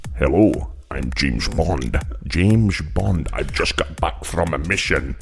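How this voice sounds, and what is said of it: Impression of James Bond. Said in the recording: “doing an impression of James Bond”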